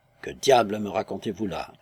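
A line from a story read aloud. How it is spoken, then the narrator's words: Stunned grumble. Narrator (French): grommela-t-il avec une stupeur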